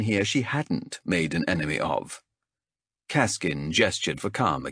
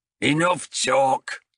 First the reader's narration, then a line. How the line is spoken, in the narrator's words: growled High Captain Azrek, and though he barely raised his voice, it still carried clear across the arena